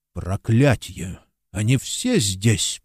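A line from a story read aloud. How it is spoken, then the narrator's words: Muttered curse. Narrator (Russian): пробормотал Смейл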